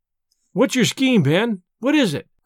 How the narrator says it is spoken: cried they all

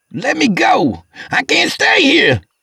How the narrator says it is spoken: he started yelling

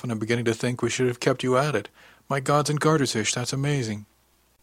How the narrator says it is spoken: she said with a little laugh

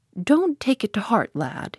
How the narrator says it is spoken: he said kindly

